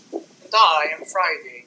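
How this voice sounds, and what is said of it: Put-on British accent. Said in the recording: “Why am I speaking in British accent?”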